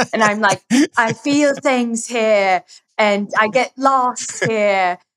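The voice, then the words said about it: Nicole Kidman impression. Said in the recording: “That was my really good Nicole Kidman impression. ... it was actually great. ... Very solid.”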